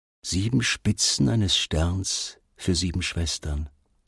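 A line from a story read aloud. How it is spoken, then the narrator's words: Murmuring. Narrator (German): murmelte Ali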